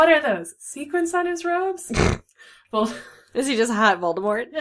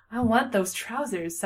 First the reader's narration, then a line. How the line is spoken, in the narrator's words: sighed Reunited Remus